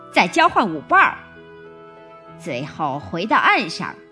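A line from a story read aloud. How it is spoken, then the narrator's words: Wild excited shouting. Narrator (Chinese): 假海龟狂跳着叫道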